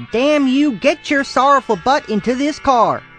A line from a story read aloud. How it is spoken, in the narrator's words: shouted